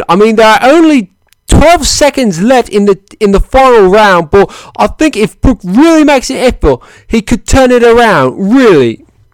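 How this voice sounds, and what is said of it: Poor put-on British accent. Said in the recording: “that is my terrible British accent for you. I normally can do a better one”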